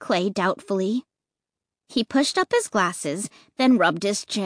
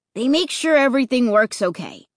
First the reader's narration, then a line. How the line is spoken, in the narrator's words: he answered finally